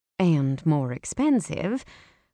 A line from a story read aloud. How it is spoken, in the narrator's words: I muttered